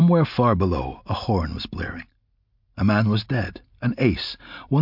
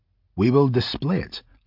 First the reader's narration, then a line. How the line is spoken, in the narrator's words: Hiram said firmly